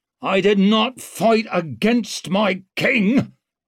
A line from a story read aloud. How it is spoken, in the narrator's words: growled out Mustard